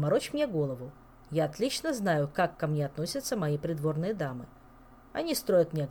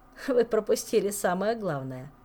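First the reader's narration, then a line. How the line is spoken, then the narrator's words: Laughing. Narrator (Russian): засмеялся Жак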